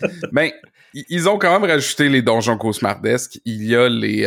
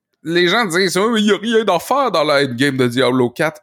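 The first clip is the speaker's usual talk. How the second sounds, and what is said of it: Odd unidentified put-on accent. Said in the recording (French): “Je sais pas c'était quel accent, ça, je m'excuse.”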